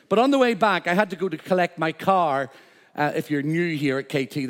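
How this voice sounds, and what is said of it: Northern Irish accent. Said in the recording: “I'm from Northern Ireland. By the way, you better get used to this accent.”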